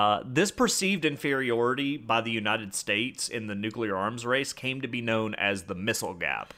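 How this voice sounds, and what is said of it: Usual voice. Nothing is said of it.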